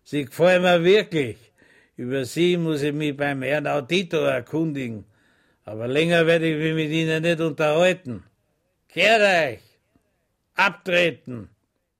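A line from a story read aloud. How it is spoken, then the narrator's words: Laughing. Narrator (German): lachte und sagte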